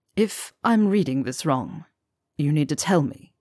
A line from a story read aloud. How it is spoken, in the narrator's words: Severus murmured